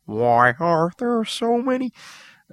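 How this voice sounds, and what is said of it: Muppet character voice impression. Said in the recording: “that was uncanny. ... we've been joined by the Jim Henson Workshop. ... I used to be able to do a good impression.”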